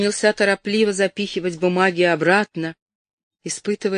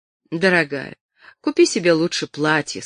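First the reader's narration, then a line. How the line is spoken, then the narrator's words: Plain. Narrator (Russian): сказал он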